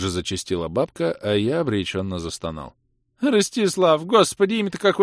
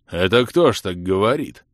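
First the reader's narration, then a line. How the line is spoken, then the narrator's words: Angry deep bass. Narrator (Russian): уже гневно пробасил Николай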